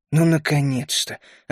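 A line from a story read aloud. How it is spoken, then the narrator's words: Relieved mutter. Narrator (Russian): облегченно буркнул я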